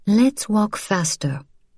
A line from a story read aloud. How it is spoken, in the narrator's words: said evenly